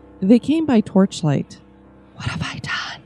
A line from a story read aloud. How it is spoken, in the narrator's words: she asked in a whisper